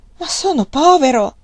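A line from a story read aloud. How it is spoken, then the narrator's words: Pleading tone. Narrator (Italian): disse in tono supplichevole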